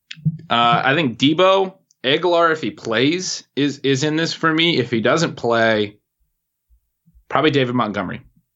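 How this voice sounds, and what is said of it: Rural American Northwest accent. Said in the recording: “you have an accent ... maybe I sound really? Like a country boy or something? ... You said Aguilar, like Aguilar almost ... It must be a Northwest thing.”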